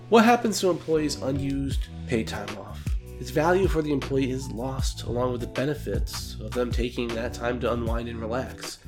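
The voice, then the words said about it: Congested voice from a cold. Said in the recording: “Excuse my voice. I have a little bit of a cold,”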